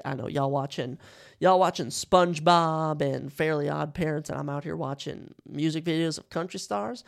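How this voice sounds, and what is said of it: Natural country accent. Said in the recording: “I have a natural, beautiful country accent, as you can tell”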